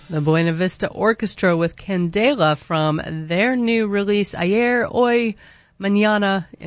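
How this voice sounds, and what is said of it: Gringo accent on Spanish names. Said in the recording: “in my gringo accent, unfortunately”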